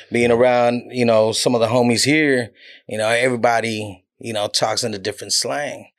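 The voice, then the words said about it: Southern country accent. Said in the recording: “It's that country accent ... It's just Southern”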